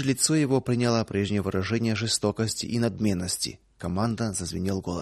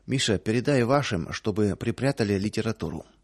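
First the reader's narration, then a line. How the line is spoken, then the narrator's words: Low voice, host. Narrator (Russian): хозяин вполголоса сказал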